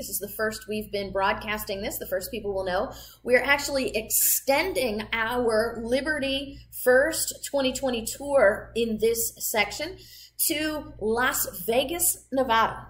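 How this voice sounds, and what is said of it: Midwestern accent, flat popping A's. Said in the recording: “a crazy Midwestern accent? My A's pop out like that sometimes.”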